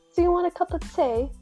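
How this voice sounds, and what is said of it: Fairly good put-on British accent. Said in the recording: “in British accent ... Yours is pretty good.”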